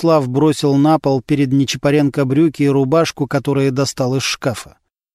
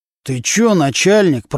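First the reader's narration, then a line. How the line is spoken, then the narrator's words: Through gritted teeth. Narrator (Russian): процедил сквозь зубы Нечипаренко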